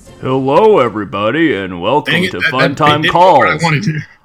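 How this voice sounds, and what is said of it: TV announcer character voice. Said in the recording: “I'm the Nickelodeon voice from 12 years ago ... I'm stuck still doing the voice ... The voice during the credits that like this is supposed to be him doing the coming up next.”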